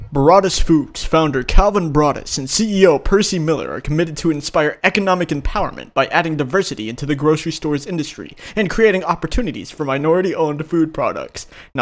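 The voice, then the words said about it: Dramatic narrator voice. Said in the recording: “narrator voice”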